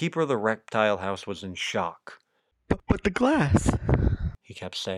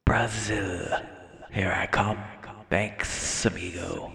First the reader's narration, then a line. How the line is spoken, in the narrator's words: a low hissing voice said